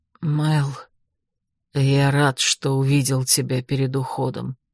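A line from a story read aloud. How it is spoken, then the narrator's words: Quiet, sad. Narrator (Russian): печально улыбнулся и тихо сказал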